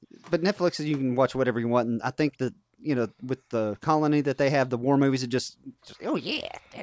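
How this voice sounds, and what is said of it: Usual voice. Nothing is said of it.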